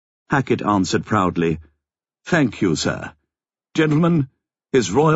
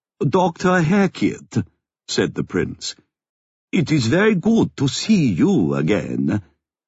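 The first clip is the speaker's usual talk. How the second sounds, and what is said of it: Crisp, heavy German accent. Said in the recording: “His accent was a crisp, heavy German.”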